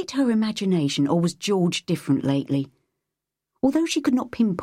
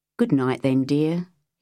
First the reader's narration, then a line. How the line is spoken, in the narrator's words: he said again